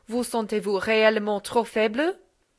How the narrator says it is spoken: said Madame sternly

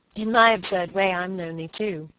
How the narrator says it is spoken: Margaret replied

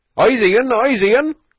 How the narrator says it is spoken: roared Rabbit's Eggs, now that he'd found a visible foe

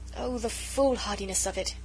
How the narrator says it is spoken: she sighed

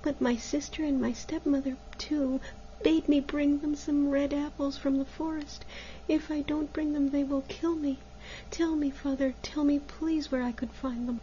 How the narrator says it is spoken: said Maruschka sadly

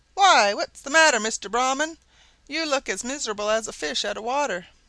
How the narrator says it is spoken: a jackal who called out

